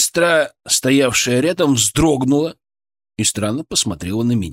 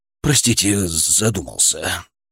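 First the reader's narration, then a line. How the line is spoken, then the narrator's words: Muttering. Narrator (Russian): пробормотал я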